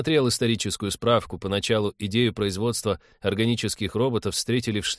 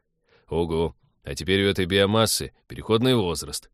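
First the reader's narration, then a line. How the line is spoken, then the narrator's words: Grim joking. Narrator (Russian): мрачно пошутил Станислав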